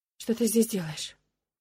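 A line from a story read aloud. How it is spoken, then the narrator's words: Hoarse tearful whisper. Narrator (Russian): Шепчу я, и голос звучит хрипло от сна и непролитых слез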